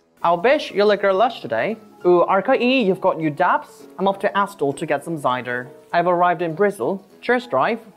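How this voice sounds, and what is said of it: Attempted Bristol accent. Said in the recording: “Korean Billy's decided to tackle the Bristol accent.”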